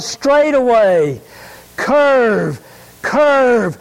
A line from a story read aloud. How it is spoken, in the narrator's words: the coach would yell